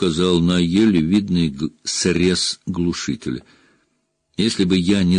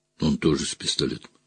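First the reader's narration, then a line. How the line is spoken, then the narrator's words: Quiet. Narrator (Russian): сказал я негромко для Жанны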